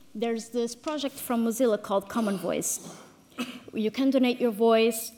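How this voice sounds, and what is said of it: Non-native English accent. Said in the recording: “I'm obviously not a native English speaker”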